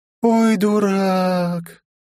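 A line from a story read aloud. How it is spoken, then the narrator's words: Disappointed drawl. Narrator (Russian): протянула она с нотками разочарования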